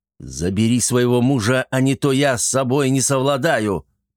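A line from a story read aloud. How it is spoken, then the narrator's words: Growled. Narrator (Russian): прорычал он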